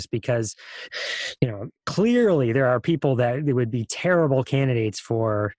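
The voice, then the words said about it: Sarcastic tone. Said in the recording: “can you hear the sarcasm in my voice?”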